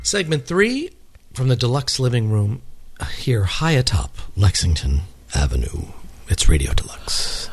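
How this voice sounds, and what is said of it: Announcer-style radio voice. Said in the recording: “You're really getting that radio voice”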